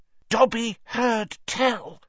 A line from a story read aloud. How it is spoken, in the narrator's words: he said hoarsely